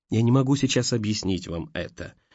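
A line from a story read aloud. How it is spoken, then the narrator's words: Soft, almost confiding. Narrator (Russian): сказал Саша мягко, почти доверительно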